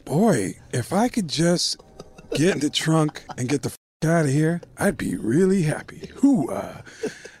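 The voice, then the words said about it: Imitates another person's voice. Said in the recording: “I love your impressions, man... your Al Pacino is spotless... I'm doing Al Pacino for the guy.”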